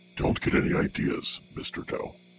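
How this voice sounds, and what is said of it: Robotic character voice. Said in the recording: “robot voice!”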